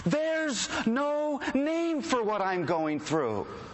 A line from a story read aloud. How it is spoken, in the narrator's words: he screams into the cosmos